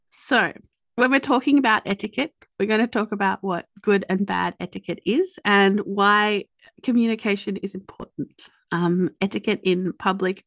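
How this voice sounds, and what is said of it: Australian accent. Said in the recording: “my lazy Australian accent ... slip and say etiquette”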